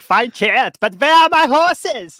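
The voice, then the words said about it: Imitates another person's voice. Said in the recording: “That was my impression of it.”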